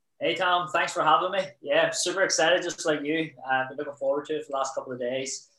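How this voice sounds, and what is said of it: Belfast Northern Irish accent. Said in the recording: “we can obviously hear a bit of an accent there ... I'm from Belfast”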